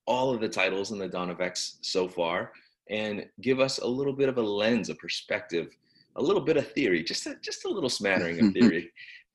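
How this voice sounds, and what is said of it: Slightly sick, congested voice. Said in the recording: “I am recovering from a cold that had me knocked out. I don't know if you can hear it in my voice ... A little bit. I can hear it.”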